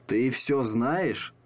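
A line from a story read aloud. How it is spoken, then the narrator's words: Puzzled mutter. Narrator (Russian): пробормотал он озадаченно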